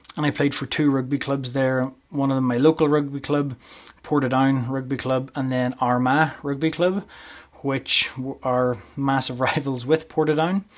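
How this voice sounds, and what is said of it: Northern Irish accent. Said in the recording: “as you can tell from the accent, I'm not originally from Canada. I was born and bred in Northern Ireland”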